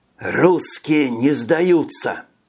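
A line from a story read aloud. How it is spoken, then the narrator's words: Whispered. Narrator (Russian): Прошептал Виктор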